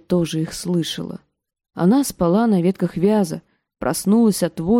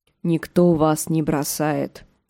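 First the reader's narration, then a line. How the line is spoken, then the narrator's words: Grumbling. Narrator (Russian): проворчал Джендри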